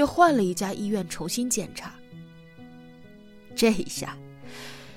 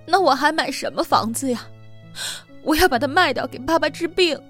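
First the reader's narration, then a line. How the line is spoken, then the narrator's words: Sobbing. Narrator (Chinese): 美宝抽泣着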